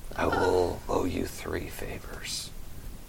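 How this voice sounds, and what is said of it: Whispering voice. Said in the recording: “He's whispering ... his voice is a whisper.”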